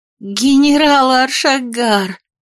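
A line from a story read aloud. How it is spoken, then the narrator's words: Relieved young woman exclaiming. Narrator (Russian): воскликнула молодая женщина с облегчением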